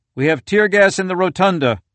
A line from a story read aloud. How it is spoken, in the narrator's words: a Capitol Police officer yelled out